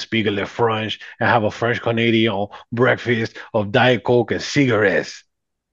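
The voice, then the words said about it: Very bad put-on French Canadian accent. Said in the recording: “That's one of the worst accents I've ever heard in my whole life. ... That was so bad.”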